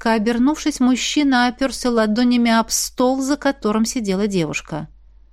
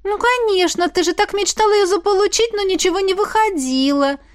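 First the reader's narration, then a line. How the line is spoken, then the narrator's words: Babbling. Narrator (Russian): залепетала Мелоди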